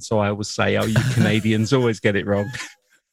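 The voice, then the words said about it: English accent. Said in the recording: “the English accent, you know, gets picked up when you're out there because they always ask if you're Australian ... recognize that accent.”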